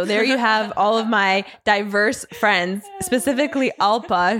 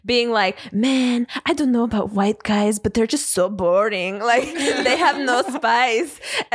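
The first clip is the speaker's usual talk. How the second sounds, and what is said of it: Imitates another person's voice. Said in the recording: “that is such a good Alpa impression”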